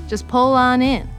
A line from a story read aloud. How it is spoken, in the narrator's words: I shouted